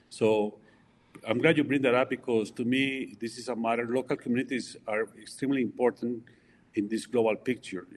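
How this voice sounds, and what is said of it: Colombian Spanish accent in English. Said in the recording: “as you can tell from my accent, I was born in Colombia”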